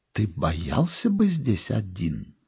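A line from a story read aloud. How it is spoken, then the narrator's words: Anxious whisper. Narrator (Russian): жена тревожным шепотом спросила меня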